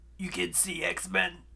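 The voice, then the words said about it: Raspy smoker's voice. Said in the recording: “a smoker voice”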